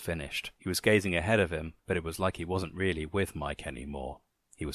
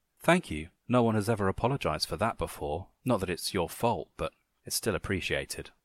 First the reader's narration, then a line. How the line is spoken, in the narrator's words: Alex said